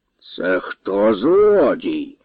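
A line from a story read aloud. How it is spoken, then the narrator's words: Hissed. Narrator (Ukrainian): засичав Божич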